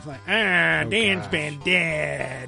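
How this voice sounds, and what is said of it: Imitates another person's voice. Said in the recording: “my Roseanne impression”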